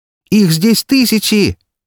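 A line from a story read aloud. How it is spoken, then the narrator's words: Shouting, trapped. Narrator (Russian): закричала попавшая в ловушку серпента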